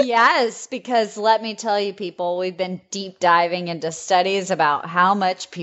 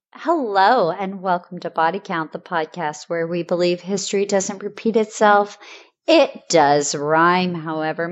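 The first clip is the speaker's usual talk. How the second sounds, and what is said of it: Polished customer service voice. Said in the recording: “your customer service voice you just presented with us today”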